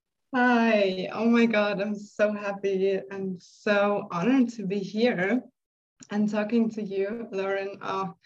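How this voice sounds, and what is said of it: Beautiful accented English. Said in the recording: “your beautiful accent”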